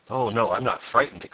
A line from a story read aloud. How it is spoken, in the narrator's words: exclaimed the odd man